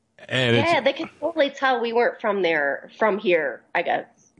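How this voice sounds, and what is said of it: Upper Midwest American accent. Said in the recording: “the strong upper Midwest accent does kind of give you away”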